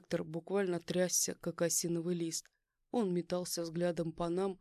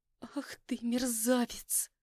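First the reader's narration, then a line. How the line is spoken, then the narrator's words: Furious hiss. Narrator (Russian): прошипела она, превращаясь из милой домашней женщины в настоящую бешеную фурию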